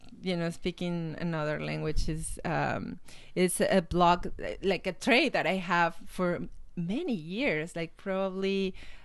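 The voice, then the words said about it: Speaks English with an accent. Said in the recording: “With my awesome accent... It's a great accent. It's a great accent. I cannot emulate your accent.”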